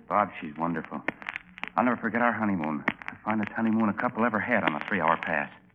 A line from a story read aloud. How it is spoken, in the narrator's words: He whispered